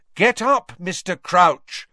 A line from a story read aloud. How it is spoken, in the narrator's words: said Harry loudly and clearly